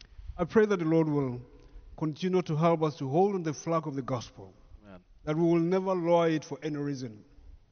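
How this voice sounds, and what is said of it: Nigerian-accented English. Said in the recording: “I know that accent, as you call it, may have impeded a lot of understanding ... if you say I have accent, you come to Nigeria, you have accent too”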